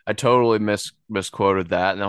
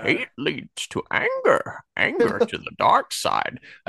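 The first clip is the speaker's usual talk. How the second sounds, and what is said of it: Poor Yoda character voice imitation. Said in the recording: “that was an awful Yoda imitation”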